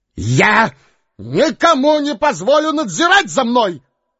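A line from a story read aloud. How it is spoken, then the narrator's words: Shouting. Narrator (Russian): кричал он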